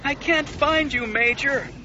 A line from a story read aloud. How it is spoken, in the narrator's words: her wingmate wailed